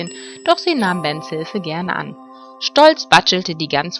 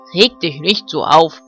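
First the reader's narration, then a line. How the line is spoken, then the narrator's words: Barking dog. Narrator (German): bellte Ben, der Hofhund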